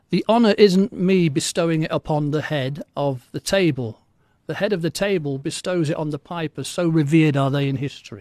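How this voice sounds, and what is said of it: English accent. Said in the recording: “I speak with an English accent”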